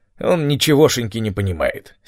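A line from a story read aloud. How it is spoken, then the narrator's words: Angry. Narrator (Russian): сердито сказал Том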